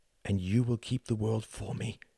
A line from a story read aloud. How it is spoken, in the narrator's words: she whispered